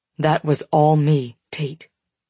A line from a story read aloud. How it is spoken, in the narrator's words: he says firmly